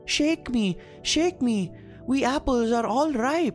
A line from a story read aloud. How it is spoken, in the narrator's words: The apples called out